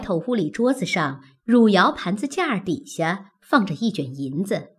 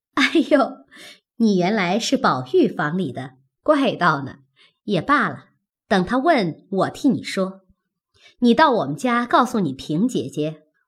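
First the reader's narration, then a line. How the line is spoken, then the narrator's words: Laughing. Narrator (Chinese): 凤姐笑道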